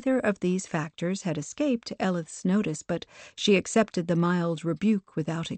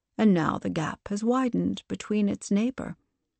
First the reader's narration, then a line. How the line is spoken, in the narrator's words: the Paragon responded, her tone flat